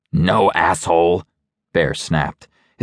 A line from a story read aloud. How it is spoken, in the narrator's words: his top lip snarling